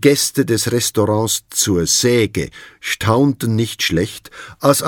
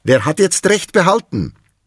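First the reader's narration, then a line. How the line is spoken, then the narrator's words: Calling down from above. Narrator (German): rief die Rinde von oben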